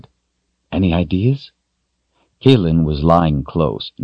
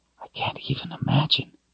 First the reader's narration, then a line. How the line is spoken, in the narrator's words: she whispered back